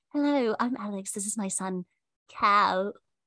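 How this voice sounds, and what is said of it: Exaggerated put-on British accent. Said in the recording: “You have to do a British accent ... making it sound horrible”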